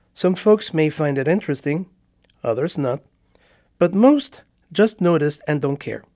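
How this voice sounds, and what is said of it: Spanish-accented English. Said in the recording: “I have an accent... It means I didn't grow up in English... I've had a Spanish accent all my life.”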